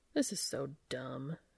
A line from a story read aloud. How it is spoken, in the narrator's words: Dean grumbled